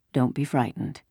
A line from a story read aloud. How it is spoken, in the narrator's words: he said to them softly